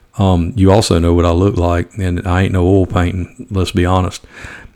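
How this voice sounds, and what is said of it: Speaks with a noticeable regional accent. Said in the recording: “I understand how I sound. I know what my accent sounds like.”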